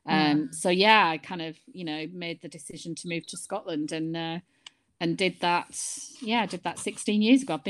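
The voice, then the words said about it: Lancashire English accent. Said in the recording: “I haven't lost the Lancashire ... No, you haven't. You definitely haven't ... I don't know if my accent's as strong as hers”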